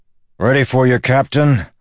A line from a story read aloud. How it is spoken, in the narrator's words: the lawman shouted